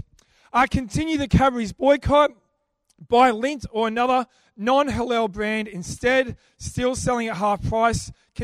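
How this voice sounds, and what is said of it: Hoarse, failing voice. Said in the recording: “<clears throat> Sorry, I'm losing my voice.”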